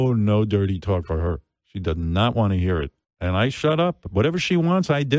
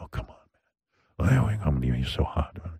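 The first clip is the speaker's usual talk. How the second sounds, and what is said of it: Put-on sexy voice. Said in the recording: “I have my sexy voice ... This is creepy”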